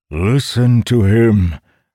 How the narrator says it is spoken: the codger's voice boomed

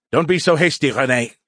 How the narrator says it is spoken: Skippy snapped peevishly

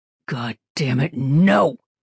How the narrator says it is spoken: He growled

